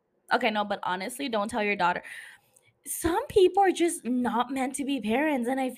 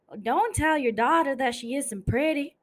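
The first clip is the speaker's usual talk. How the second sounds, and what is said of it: Put-on Southern US accent. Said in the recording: “I was trying to make a southern accent because Constance is southern.”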